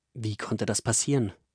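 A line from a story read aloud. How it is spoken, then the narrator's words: Plain. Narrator (German): fragt Pascha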